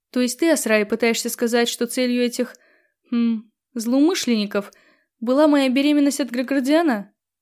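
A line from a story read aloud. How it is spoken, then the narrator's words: Perfectly calm question. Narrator (Russian): Абсолютно спокойно спросила она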